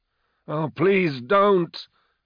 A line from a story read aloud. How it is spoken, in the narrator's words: Moloch cried